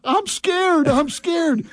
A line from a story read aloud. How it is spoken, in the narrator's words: Parker is yelling